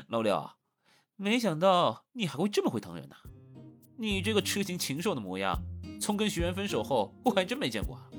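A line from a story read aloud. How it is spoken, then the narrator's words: Snickering, teasing. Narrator (Chinese): 谢恒扑哧一声笑了，没皮没脸的接着说道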